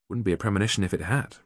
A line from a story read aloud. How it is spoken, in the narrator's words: replied Jack